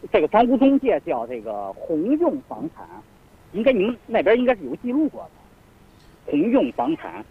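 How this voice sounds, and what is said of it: Non-local regional Mandarin accent. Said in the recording (Chinese): “您带着这个外地的口音。 ... 需要您慢一点，把语速慢一点讲啊，让我们都能听得清”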